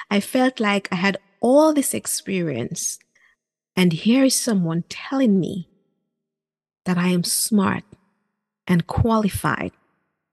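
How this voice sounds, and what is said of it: Caribbean accent. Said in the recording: “My Caribbean accent”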